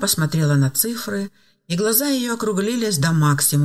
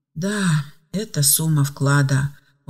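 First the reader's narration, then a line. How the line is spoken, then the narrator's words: Tired. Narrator (Russian): устало ответила Ева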